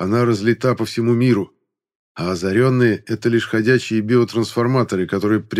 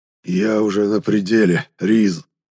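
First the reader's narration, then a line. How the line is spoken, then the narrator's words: Cracked voice. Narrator (Russian): Над треснутым голосом отозвался изгнанник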